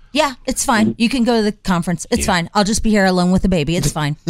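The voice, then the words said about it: Impression of the wife. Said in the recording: “But the wife, let me just do an impression.”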